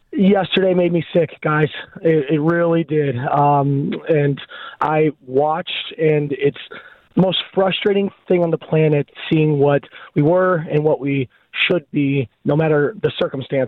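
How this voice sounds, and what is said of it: Raspy, hoarse voice. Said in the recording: “Please excuse my raspy voice. ... Yeah, what's with you? I thought that's not”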